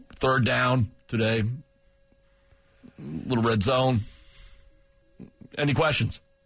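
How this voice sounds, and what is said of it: Impression of a coach, long pauses. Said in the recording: “do an impression ... You're not sure when he's done talking ... he really appreciates the pauses”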